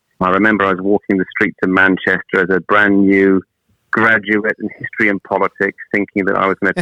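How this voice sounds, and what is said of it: Welsh accent. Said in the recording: “my, my lovely accent, I'm from the Northern Hemisphere. I'm actually from Wales originally.”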